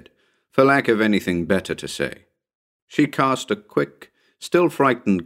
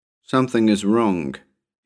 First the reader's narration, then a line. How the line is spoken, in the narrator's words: he said flatly